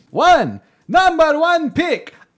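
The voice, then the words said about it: Count von Count impression. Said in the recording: “You have to do a Count impression since you're drafting him.”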